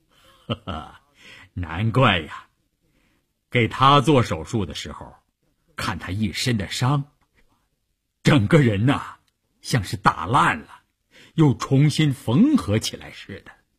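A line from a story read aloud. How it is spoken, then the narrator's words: Laughing doctor. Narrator (Chinese): 医生笑着说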